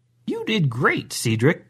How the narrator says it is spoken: Grandma said rather cheerfully

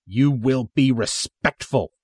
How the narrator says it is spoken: the soldier snaps

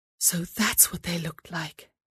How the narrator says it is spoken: whispered to herself

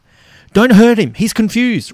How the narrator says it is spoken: Robert yells

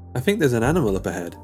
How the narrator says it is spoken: said

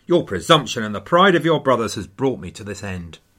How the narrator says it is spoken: says rather bitterly

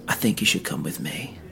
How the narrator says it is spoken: quietly whispered

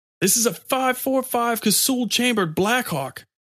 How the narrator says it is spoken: Comey shouted

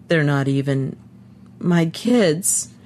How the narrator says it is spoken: he said brokenly

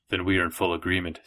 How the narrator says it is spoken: said Gerard

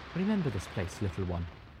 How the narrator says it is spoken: Zenith said softly

